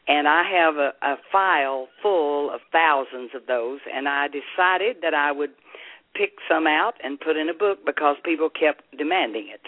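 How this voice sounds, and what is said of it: Southern American accent. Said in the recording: “I hear that wonderful, beautiful Southern accent ... I'm Southern. I have that accent.”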